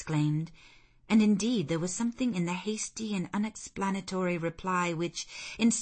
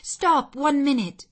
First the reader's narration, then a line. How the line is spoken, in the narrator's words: I cried